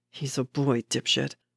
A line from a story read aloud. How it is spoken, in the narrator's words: Bucky muttered